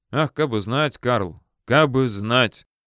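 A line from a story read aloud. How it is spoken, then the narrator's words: Breathless, sighing answer. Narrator (Russian): отвечал Волков, снова попытавшись глубоко вздохнуть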